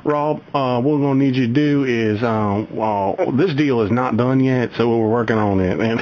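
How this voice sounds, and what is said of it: Imitation of a colleague's voice. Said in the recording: “do a Pat imitation here now ... I'm going to try doing best Pat imitation”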